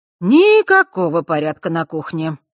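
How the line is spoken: Muttered under breath. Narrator (Russian): пробурчала она под нос

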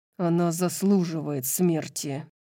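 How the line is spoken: Through gritted teeth. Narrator (Russian): процедил сквозь зубы Хант

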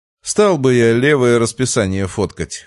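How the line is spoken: Smirking young man. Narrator (Russian): хмыкнул парень

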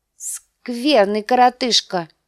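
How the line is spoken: Giggling. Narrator (Russian): сказал лорд Роберт, хихикая

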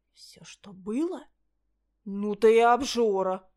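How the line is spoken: Indignant exhale. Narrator (Russian): возмущенно выдохнула я

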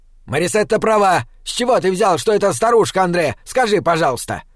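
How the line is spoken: Furious woman barking. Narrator (Russian): Рявкнула та же фурия

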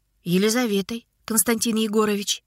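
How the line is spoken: Calm. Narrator (Russian): Лизонька спокойно сказала

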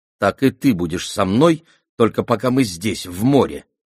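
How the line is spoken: Angry retort. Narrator (Russian): сердито возразила Аламанда

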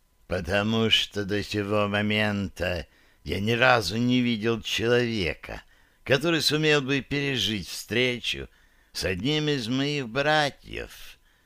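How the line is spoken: Almost tender demonic whisper. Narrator (Russian): почти ласково прошептал демон

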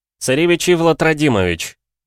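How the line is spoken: Resonant commanding voice. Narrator (Russian): представился Ивлад каким-то новым, звучным и властным голосом

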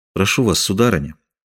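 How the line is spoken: Soft, apologetic voice. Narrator (Russian): мягко, словно извиняясь, проговорил Фельтон

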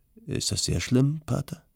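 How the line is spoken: Hesitant question. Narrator (German): fragte zögernd

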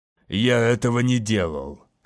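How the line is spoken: Menacingly level voice. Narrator (Russian): сказал он угрожающе ровным голосом

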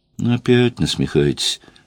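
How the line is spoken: Sad. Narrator (Russian): грустно сказала Жанна

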